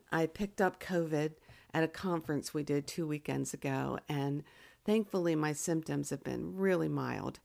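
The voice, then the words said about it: Unwell, slightly strained altered voice. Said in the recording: “my voice is going to sound a little different ... my voice is a little weird ... grab a drink of water or maybe clear my throat”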